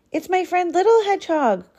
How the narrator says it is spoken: cried Rabbit

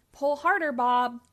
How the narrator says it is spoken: yelled Spud

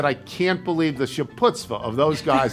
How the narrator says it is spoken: laughed to myself

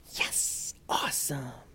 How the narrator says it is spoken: the kids whisper cheering

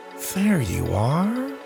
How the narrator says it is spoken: he said quietly

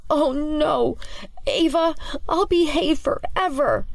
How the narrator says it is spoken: whimpers his objection as he struggles to keep the books held high

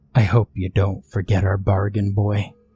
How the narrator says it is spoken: she whispered into his ear, softly so that the frog couldn't hear

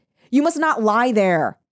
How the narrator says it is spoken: shouted the watchman

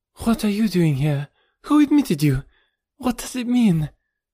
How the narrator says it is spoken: she cried

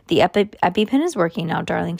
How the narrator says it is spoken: she said

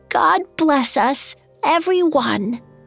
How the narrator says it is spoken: His hand shook as he raised the cup and exclaimed in a frail voice

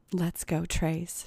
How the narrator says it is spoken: she said in a breathy voice

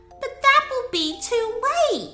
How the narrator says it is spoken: Mila exclaimed and started to cry

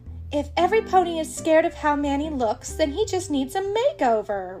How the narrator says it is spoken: Rarity exclaims

